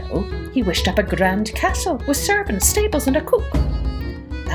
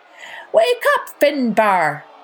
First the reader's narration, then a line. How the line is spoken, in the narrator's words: cried Tom O'Rourke